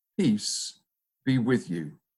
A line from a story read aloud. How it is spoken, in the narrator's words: said